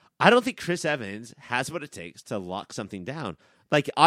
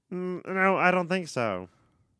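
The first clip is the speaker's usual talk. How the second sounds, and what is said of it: Imitates another person's voice. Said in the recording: “do a good Chris Evans impression... Dead ball's accurate.”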